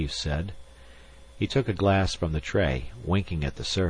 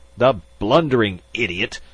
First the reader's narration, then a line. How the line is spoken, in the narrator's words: Magnan spluttered